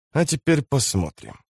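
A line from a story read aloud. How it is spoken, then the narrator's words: Muttered. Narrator (Russian): пробормотал он наконец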